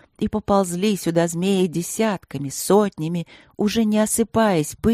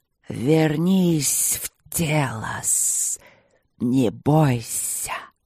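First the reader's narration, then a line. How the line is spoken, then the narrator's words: Hissing large creature. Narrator (Russian): шипело большое существо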